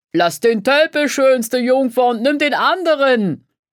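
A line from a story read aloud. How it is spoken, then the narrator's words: Laughing shout. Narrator (German): rief einer der Zuschauer lachend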